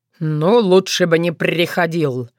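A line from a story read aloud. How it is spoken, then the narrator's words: Phlegmatic grunt. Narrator (Russian): флегматично хмыкнул Корунд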